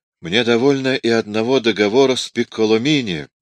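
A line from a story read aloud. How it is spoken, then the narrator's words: Sad. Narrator (Russian): печально сказал Микеланджело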